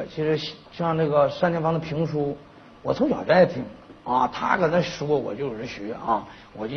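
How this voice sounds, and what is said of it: Usual voice. Nothing is said of it.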